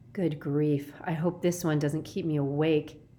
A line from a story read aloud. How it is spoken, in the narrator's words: said Kate with a sigh